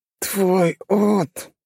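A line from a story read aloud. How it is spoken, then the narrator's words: Lisping. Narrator (Russian): прошепелявил он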